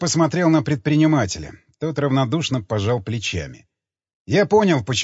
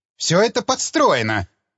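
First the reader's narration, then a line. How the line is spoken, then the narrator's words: Shrill squeal. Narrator (Russian): взвизгнул Левин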